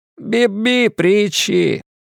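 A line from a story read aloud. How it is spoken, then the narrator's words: Laughing. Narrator (Russian): Он рассмеялся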